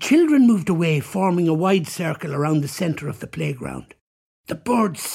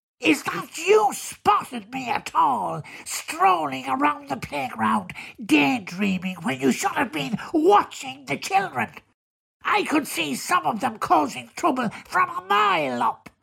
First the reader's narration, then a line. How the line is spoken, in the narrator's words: said the bird in a nasal voice